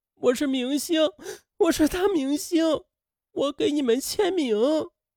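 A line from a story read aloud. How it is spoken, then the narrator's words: Breaking down, wailing. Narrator (Chinese): 他便崩溃了，嚎哭起来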